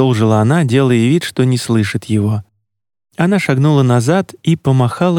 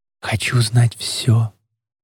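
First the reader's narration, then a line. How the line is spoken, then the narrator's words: Cynical whisper. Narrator (Russian): добавила Камила с циническим шепотом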